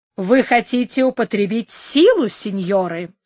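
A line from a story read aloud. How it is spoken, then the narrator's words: Plain. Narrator (Russian): спросил он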